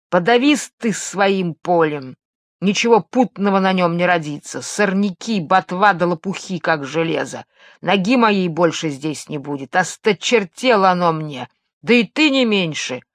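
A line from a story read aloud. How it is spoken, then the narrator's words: Furious growl. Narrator (Russian): Рыкнул богарт яростно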